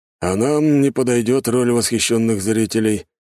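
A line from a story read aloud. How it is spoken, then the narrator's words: Gloomy remark. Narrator (Russian): мрачно добавил Адамс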